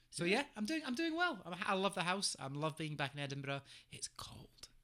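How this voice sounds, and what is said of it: Regional accent with harder R. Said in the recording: “I know the accent has slightly increased ... You have um, a harder R ... you have a harder R”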